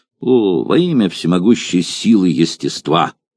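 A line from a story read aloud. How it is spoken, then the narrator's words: Angry, powerful exclamation. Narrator (Russian): Гневно воскликнул мощным голосом Эпирот Фессалоний, начальник 7-го легиона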